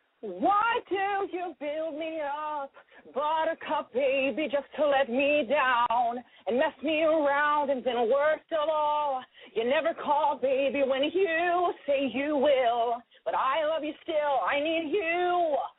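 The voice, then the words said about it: Sung imitation of another person's voice. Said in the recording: “my impression of Clay Aiken”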